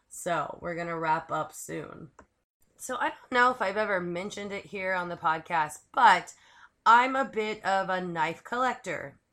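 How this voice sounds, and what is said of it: Strained, failing voice. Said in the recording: “apologize for my voice. It is like going out really quick here.”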